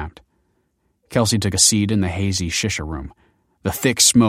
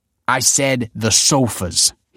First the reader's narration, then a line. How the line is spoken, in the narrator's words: snapped